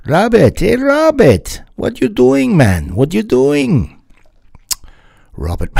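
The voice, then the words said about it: Bad put-on Jamaican accent. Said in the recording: “that's terrible Jamaican accent creeping in there”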